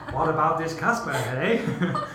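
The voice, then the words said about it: Put-on Canadian accent. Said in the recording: “Did you have to use a Canadian accent?”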